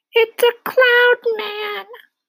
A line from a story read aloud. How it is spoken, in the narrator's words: Miss Spider cried